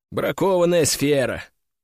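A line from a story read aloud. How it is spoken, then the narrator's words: Calm statement. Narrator (Russian): Спокойно констатировал я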